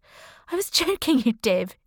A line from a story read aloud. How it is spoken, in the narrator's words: she laughed